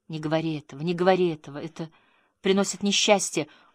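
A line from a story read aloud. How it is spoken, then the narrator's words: Tearful repetition. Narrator (Russian): женщина начала плакать, и сквозь слезы она повторяла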